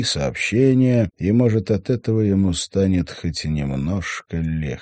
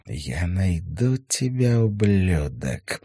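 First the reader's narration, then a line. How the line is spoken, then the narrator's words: Through gritted teeth. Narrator (Russian): процедила она сквозь зубы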